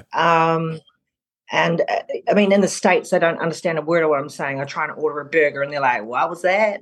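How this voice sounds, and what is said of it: New Zealand accent, slight Australian twang. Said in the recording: “with that accent ... It's a bit of a jumbled one, but I'm originally from New Zealand. But there's a bit of an Aussie twang in there”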